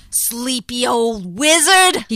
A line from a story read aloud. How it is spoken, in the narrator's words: grumbled to himself